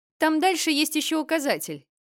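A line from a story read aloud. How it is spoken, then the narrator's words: Distant shout from forest. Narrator (Russian): выкрикнул Хьюберт из глубины леса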